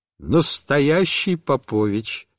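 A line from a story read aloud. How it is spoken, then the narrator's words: Plain. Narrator (Russian): сказала мама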